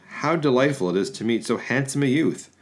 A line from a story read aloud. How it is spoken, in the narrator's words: the female deity, speaking first, exclaimed